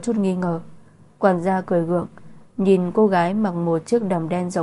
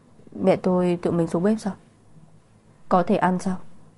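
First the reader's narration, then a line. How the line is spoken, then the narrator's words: Whisper. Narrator (Vietnamese): khóe miệng Thượng Quan Triệt giật giật thì thầm nói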